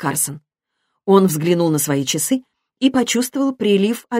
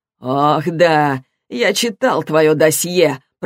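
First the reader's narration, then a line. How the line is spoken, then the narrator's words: Grumbling. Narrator (Russian): проворчал Нун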